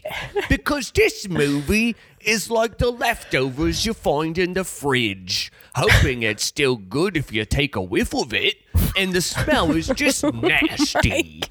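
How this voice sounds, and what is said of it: Put-on Australian accent, impressive. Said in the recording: “I had no idea you could do an Australian accent. That was impressive.”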